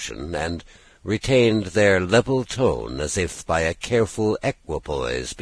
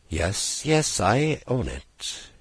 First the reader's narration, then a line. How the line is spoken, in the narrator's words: she cried under her breath, with a drowsy fervour of manner and tone which was quite peculiar to her